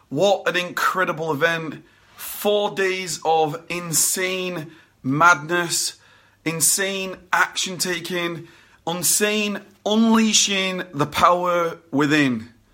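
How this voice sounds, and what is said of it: Badly worn-out, damaged voice. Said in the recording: “you might be able to hear my voice is completely destroyed”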